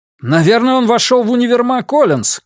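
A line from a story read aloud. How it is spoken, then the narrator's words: Shout into headset. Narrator (Russian): крикнул Фабиан в микрофон на наушниках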